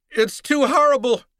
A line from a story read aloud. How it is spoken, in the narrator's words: she cried